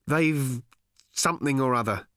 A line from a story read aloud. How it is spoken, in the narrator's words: he said